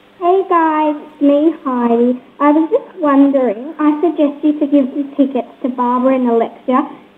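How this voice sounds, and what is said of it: Child's impersonation of Heidi. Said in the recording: “the 11-year-old's going to be doing the impersonation. ... Heidi”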